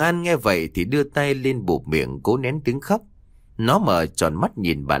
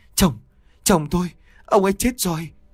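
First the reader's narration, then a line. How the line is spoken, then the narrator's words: Trembling voice. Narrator (Vietnamese): bà run rẩy nói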